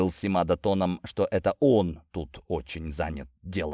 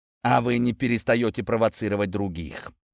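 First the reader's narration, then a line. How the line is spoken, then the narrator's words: Snorted after a pause. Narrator (Russian): После небольшой паузы хмыкнул Симада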